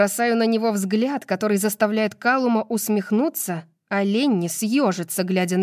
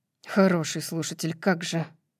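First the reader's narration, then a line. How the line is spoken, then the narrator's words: Muttered. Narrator (Russian): Бормочет Ленни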